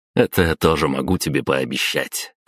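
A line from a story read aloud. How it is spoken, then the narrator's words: Short laugh. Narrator (Russian): хохотнул я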